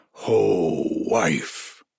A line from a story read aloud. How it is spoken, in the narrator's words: he growled